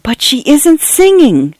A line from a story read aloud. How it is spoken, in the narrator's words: Cynthia whispered in shock and horror